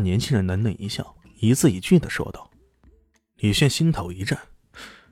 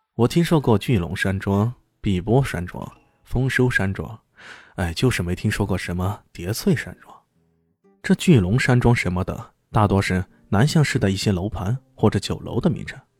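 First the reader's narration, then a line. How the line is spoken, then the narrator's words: Calm, flat. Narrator (Chinese): 淡淡的说道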